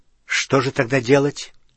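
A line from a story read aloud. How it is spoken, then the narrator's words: Angry question. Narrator (Russian): сердито спросил Гарри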